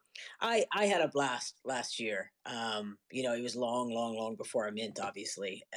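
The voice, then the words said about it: New York accent. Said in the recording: “it sounds like a New York accent”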